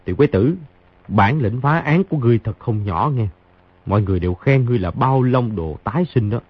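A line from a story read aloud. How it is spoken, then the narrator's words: Soft chuckle, speaking. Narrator (Vietnamese): Khang Hy cười khẽ một tiếng nói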